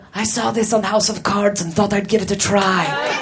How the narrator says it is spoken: Vladimir whispered

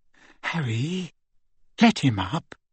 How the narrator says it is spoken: Hermione whispered

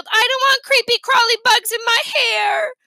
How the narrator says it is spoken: Fudge yelled

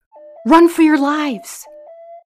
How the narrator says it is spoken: From the other room, their boss shouted

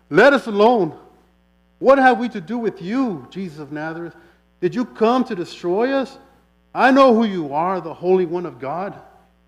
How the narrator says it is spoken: a man with an unclean spirit, he cried out, saying

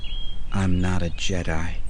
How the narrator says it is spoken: Xana said in a cold whisper

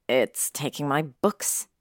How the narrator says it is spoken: Harry snapped

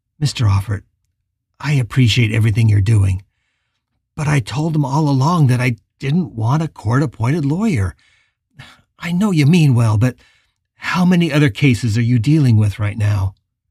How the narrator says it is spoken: Howard said with a sigh

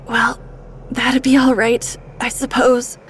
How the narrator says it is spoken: he wheezed

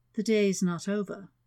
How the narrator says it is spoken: murmured

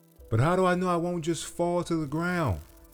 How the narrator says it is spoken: the butterfly yelled out

